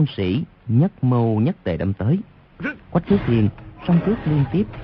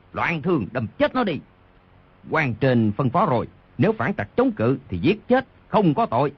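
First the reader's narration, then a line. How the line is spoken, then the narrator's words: Furious pained roar. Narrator (Vietnamese): Đoàn Thiên Đức trúng đòn đau quá, vô cùng tức giận gầm lên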